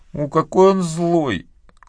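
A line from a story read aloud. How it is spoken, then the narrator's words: Loud echoing sobs. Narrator (Russian): громко всхлипывала Мэгги, находя какое-то болезненное удовольствие в гулком отзвуке, разносившем ее голос по всему обширному чердаку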